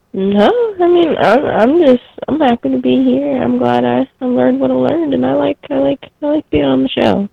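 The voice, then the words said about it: Squeaky voice. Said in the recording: “I have a really squeaky voice.”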